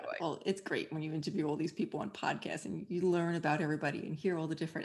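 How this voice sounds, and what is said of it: New York accent. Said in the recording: “Everybody here says I have a New York accent ... the accent never goes away”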